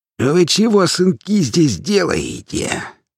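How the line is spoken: Strange creaky voice. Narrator (Russian): проскрипел он каким-то странным голосом

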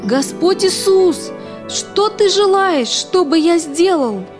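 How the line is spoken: Shouted. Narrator (Russian): он закричал

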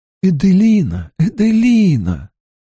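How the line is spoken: Exclaiming. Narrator (Russian): воскликнула Клеменция

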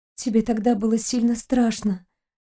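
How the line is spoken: Whisper. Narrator (Russian): прошептала девушка

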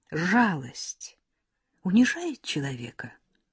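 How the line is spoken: Quiet question. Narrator (Russian): тихо спрашивает Ираида

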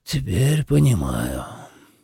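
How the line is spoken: Sighing. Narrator (Russian): вздохнул Шийко Рай Аранах

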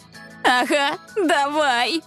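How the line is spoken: Laughing agreement. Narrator (Russian): сквозь смех согласилась Несмеяна

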